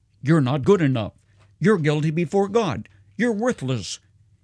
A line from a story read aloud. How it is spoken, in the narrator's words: a conscience that constantly cried